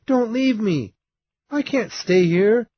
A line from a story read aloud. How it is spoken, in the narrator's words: young Kathy learned that her cousin was already gone, she cried because she had wanted to play with him